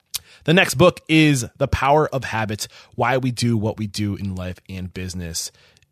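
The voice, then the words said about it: Strained voice, losing voice. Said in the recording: “I'm starting to lose my voice.”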